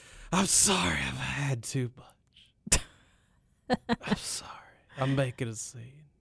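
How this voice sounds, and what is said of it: Slurred, tipsy-sounding voice. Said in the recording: “she's all slurry, like ... my impression of you and your mom”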